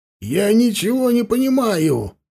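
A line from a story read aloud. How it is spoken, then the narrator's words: Howling. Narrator (Russian): взвыл Хаста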